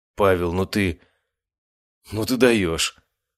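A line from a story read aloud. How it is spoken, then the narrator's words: Exclaimed. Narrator (Russian): воскликнула моя медсестра Анастасия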